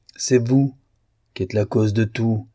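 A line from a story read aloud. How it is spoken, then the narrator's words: Sorrowful priest's grumble. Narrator (French): gronda le prêtre d'un air chagrin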